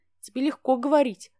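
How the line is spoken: Sigh. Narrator (Russian): вздохнула я

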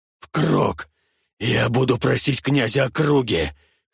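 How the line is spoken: Hoarse wheezing speech. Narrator (Russian): хрипя говорил

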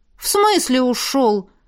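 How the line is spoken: Exclamation. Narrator (Russian): воскликнула я

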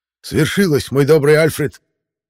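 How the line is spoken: Highly excited exclamation. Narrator (Russian): воскликнул кайзер в невероятном возбуждении

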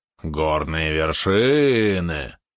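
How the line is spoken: Unpleasant wheeze. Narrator (Russian): противно захрипел Валерон

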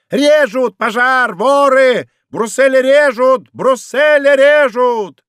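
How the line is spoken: Shouting. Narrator (Russian): кричал Фрике

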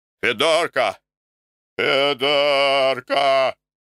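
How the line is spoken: Shout. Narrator (Russian): Крикнет

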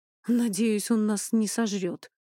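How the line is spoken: Sighing. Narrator (Russian): вздохнул Эней

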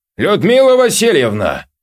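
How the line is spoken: Shouting down a corridor. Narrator (Russian): крикнула она куда-то в коридор

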